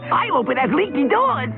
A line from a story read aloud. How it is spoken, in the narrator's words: cried the second